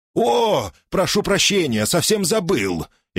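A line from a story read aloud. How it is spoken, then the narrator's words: Exclamation. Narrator (Russian): воскликнул тот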